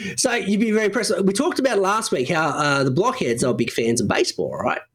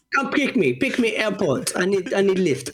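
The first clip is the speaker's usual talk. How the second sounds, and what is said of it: Put-on Russian accent, broken English. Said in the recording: “develop a Russian accent?”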